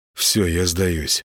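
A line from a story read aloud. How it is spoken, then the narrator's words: Faint mumble. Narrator (Russian): промямлил Гена, чувствуя, что вот-вот потеряет сознание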